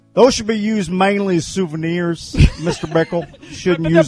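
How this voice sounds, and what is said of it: Impression of Fred Ridley. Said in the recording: “Fred Ridley ... your impression”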